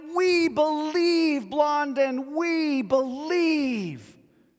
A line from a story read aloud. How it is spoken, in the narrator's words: the crowd, even more amped up than before, called out